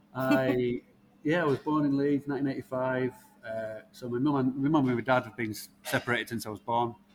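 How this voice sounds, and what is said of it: Leeds accent. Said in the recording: “you've lived in Leeds all your life from your accent”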